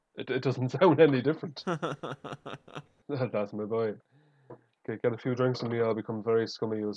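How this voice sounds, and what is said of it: Irish accent. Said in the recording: “I've heard an Irishman say ... my own accent”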